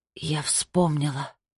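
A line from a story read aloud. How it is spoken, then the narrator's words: Whisper. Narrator (Russian): прошептала она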